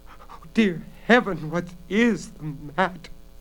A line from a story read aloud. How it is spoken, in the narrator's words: Bella sobbed desperately, for by now the robbers were beating at the door